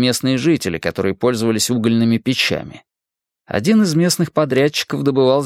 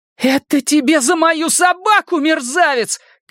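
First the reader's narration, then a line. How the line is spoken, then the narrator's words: Tearful angry shout. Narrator (Russian): крикнул Майк, не подозревая, что по щекам полились слезы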